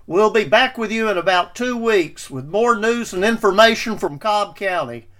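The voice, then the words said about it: Harsh Southern US accent. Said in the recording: “make Gomer Pyle say, "Golly, that guy has a harsh southern accent."”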